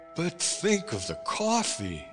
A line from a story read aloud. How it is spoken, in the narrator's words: I cried